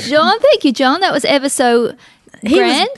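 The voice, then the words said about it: Sarcastic delivery. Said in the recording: “He was being sarcastic.”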